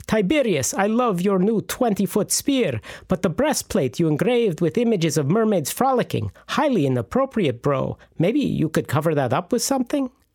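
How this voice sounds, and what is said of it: Bad put-on Russian accent. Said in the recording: “the ancient Romans spoke in a bad Russian accent”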